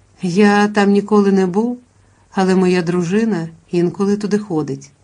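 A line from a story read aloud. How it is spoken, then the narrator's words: Conciliatory tone. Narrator (Ukrainian): пан Сімонно відповідав примирливим тоном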